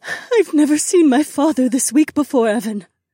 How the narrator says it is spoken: my wife sobbed

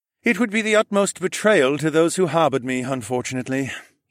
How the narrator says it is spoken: sighed

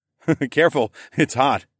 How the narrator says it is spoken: I chuckled again

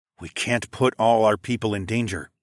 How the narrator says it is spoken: I muttered

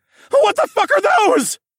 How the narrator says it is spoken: the prepubescent screech in my voice when I yelled

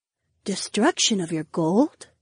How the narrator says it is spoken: Daisy whispered

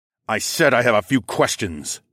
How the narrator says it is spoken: I snarled

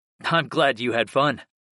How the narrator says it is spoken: I chuckled

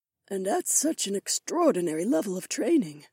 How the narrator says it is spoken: Issei murmured

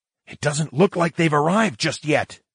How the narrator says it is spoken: whispered

